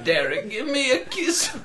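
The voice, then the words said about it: Old lady voice. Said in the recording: “That's a really good old lady voice. Hit me with it again”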